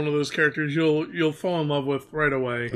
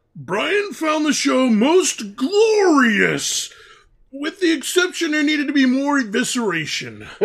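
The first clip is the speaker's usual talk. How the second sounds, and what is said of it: Imitates a cartoon character's voice. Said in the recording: “best Varvatos Vex impersonation”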